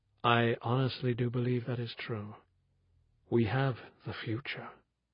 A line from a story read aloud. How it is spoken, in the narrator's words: he said with a soft sigh